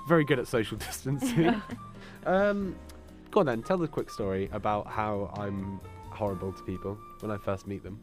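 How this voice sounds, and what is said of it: Congested voice from a cold. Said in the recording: “As you can tell by the fact that I have a cold.”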